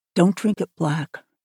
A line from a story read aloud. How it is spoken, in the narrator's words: she said quietly